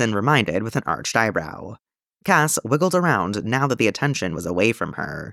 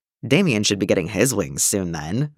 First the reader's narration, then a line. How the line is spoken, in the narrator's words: Jason snorted under his breath